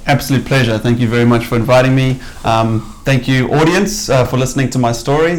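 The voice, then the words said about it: South African accent. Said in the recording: “as you can probably tell from your accent, you're not from, like myself, you're not from New Zealand ... originally from South Africa”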